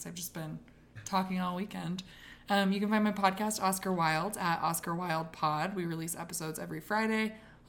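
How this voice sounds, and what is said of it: Hoarse, strained, worn-out voice. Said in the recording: “I'm losing my voice.”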